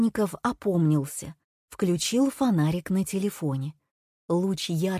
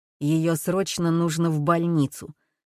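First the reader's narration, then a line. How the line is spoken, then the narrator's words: Curt, through clenched teeth. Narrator (Russian): сквозь зубы бросил Гордеев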